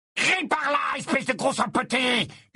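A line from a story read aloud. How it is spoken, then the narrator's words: Yelled. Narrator (French): hurla Gaunt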